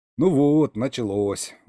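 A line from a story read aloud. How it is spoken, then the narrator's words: Sigh. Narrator (Russian): вздохнул я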